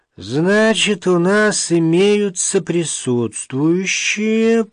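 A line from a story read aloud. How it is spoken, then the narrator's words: Drawling. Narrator (Russian): протянул нотариус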